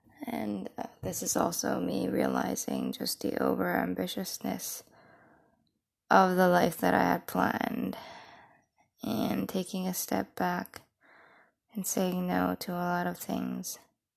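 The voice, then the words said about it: Congested, rough sick-sounding voice. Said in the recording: “my voice is bad ... my sinus being clogged and my voice being out of whack and my throat being dry”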